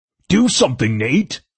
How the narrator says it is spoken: Gunner bellowed

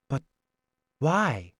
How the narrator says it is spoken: I asked softly

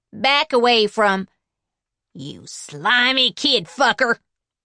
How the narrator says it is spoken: she boomed, using her cop voice

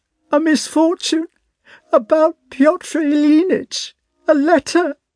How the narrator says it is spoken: she finished with a sob

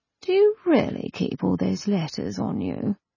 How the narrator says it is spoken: sleepily, she asked

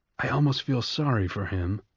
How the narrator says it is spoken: Coriolanus whispered to Lysistrata

